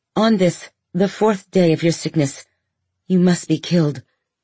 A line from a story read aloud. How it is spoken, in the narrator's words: you said